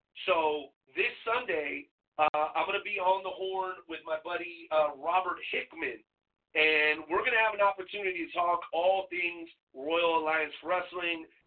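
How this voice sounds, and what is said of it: Voice in poor shape. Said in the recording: “my voice is kind of shitty right now”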